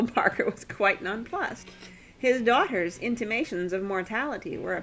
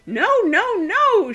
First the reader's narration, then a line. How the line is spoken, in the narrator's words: shrieked Daisy, infuriated that Arioch, just because he was going to have a funeral, should be presumed dead